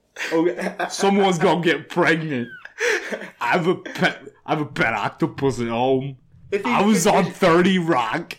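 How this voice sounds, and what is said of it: Imitates another person's voice. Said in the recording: “do a Tracy Morgan impression ... That was my Tracy Morgan.”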